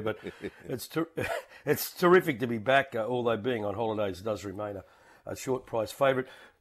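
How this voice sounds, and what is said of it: Australian accent. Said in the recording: “I'm wondering whether he's got an American accent or not... No, I'm an Aussie through and through, mate.”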